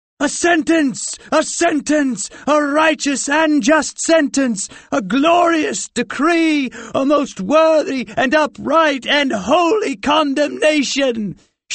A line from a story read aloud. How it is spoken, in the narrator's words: shouted the Pest family all together